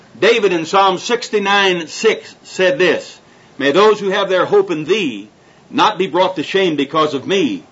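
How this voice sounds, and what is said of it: Accented, rapid speech. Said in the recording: “am I speaking too rapidly for you? ... My accent's not bothering you?”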